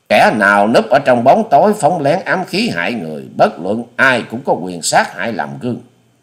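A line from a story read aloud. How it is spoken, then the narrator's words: Old woman, angry. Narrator (Vietnamese): Cụ bà áo xanh giận dữ nói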